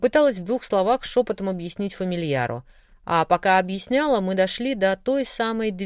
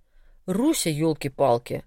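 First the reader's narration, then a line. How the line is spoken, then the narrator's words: Growl. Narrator (Russian): рыкнул Коша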